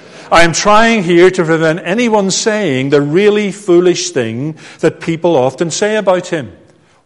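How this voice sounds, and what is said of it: Northern Irish accent. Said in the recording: “my accent matches his because he was from Northern Ireland”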